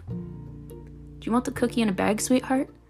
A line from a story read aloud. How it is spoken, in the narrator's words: the baker's wife asked kindly